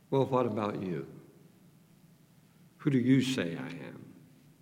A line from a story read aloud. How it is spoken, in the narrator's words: he quietly asks